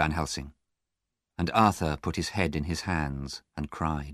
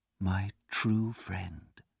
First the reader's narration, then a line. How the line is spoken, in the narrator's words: said softly